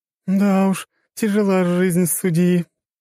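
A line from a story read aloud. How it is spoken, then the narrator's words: Giggling. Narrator (Russian): хихикала Джессика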